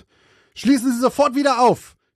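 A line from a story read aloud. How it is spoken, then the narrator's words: Shouting angrily. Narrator (German): schrie Cheryl den Tankwart an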